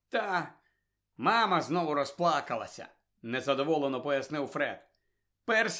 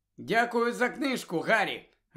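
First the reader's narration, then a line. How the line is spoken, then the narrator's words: Joyful. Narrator (Ukrainian): радісно сказала вона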